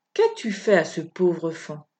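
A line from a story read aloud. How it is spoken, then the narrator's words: Curt question. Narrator (French): Elle lui demanda sèchement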